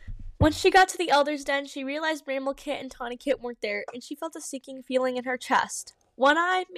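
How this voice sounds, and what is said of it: Usual voice. Nothing is said of it.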